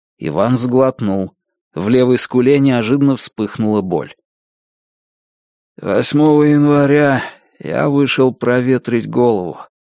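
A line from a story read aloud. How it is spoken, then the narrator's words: Flat, colorless voice. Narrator (Russian): бесцветным голосом сказал он, будто не слыша вопроса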